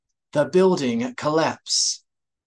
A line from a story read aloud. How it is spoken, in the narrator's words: Saba rasped